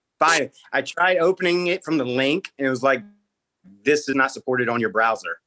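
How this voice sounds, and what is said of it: Maryland accent that sounds Southern. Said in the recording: “You have an accent... I'm from Maryland... Think I'm like from Tennessee or Texas or any southern state.”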